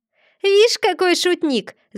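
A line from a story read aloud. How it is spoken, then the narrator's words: Laughing shout, devil. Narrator (Russian): закричал, смеясь, черт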